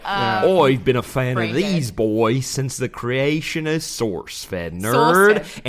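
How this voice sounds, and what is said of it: Mixed Australian-southern put-on accent. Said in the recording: “You should do this in your Australian accent... My accents just kind of blend into one noise... it's like Russian meets... It was a southern accent for a second”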